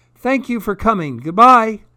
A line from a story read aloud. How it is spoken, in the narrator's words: I said in my loudest voice